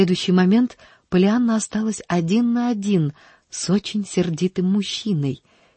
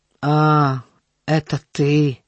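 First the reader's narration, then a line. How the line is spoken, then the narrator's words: Unfriendly grumble. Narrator (Russian): проворчал он не очень любезно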